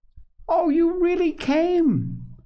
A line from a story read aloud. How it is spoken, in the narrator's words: cried Ben, with a beaming face